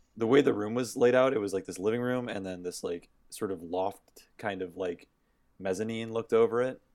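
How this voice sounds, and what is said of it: Strained, fading voice. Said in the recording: “I'm losing my voice a little bit”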